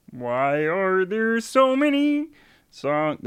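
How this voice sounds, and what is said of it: Kermit the Frog impression. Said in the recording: “my Kermit impression ... it's really good ... Kermit's really easy”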